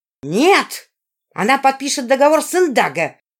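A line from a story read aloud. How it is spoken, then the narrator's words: Yelled. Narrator (Russian): заорала Жизара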